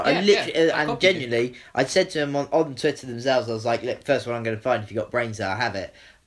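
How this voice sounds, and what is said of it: Welsh accent. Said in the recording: “is a Welsh rugby fan, as you can tell from the accent.”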